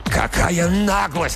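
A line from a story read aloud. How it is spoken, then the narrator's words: Struggling indignant shout. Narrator (Russian): кричал, вырываясь, Макдаф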